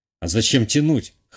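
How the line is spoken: Wry snort. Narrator (Russian): хмыкнул я

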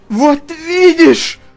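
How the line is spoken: Hoarse. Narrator (Russian): прохрипел

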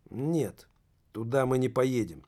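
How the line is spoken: Calm, firm, curt. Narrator (Russian): спокойно, но решительно отрезал сотрудник контрразведки

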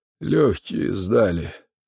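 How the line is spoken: Weak voice. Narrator (Russian): сказал боец слабым голосом

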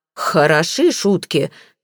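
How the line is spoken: Roaring. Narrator (Russian): взревел мистер Флип

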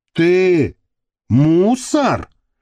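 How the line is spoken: Threatening, astonished question. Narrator (Russian): угрожающе изумленным тоном спросил, не расслышавший всю фразу, но зато уловивший ключевое слово, косой

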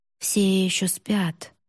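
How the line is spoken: Inner thought. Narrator (Russian): подумала Юри

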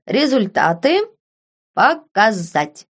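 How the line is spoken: Loud, addressed to no one. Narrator (Russian): громко проговорил он в пространство

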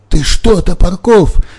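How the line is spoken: Terrified babbling. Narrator (Russian): захлебываясь от ужаса, лепетал Виктор Петрович

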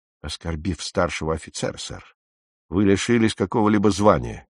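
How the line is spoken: Quiet, firm. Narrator (Russian): тихо ответил капитан, тоном говорившим, что никаких больше споров он не желает

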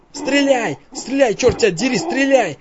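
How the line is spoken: Hoarse, breathless. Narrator (Russian): Хриплю остатками воздуха

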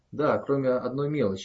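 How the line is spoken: Plain answer. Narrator (Russian): ответила Рио

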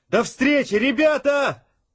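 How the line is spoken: Brisk shout. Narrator (Russian): Бодро выкрикнул Сашка

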